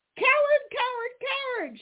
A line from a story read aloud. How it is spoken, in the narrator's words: shrieked Johnny Chuck